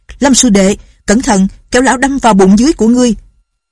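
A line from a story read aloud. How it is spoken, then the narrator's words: Shouted warning. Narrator (Vietnamese): Lệnh Hồ Xung la lên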